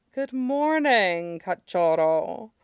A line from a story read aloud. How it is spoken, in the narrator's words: he murmurs